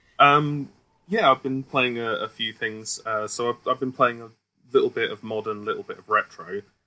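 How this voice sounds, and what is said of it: Smooth British accent. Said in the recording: “your smooth, suave British accent”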